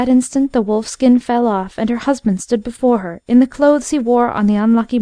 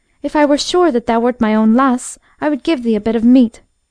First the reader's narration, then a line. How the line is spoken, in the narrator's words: she exclaimed